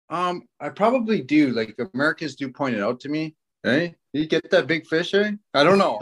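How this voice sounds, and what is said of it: Canadian accent. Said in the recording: “Do I sound so Canadian to you guys? ... that guy sounds so Canadian”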